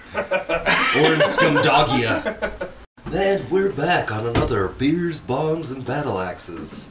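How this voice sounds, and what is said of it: Smart-sounding public radio announcer voice. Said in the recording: “Who is that on voice NPR? ... It's not Casey Kasem. ... But it sounds kind of like him. ... That's my nerd voice. This is how I talk when I'm smart. ... Sounds like the guy that does This American Life.”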